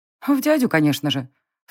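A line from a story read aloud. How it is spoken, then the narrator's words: Child snorting. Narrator (Russian): фыркнула мелкая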